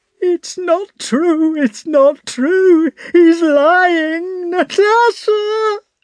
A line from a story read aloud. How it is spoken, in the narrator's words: she shrieked